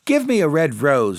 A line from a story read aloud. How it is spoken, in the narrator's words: she cried